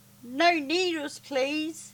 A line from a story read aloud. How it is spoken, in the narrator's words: she whimpered